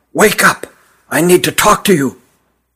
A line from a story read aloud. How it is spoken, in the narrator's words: he whispered huskily